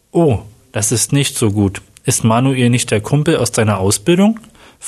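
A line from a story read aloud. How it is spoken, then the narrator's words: Plain. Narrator (German): fragte Sabrina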